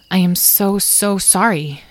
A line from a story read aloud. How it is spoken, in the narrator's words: she said slowly